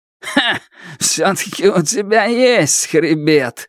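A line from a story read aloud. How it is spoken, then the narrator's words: Laughing. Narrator (Russian): Черныш рассмеялся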